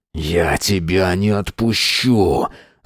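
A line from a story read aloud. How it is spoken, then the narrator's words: Hissed like a snake. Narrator (Russian): зашипел, как змей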